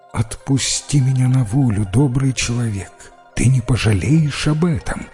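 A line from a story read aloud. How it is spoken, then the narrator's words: Plain. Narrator (Russian): сказала она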